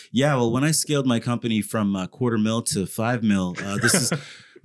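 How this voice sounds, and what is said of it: Put-on affected voice. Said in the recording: “I don't know why I put on that voice”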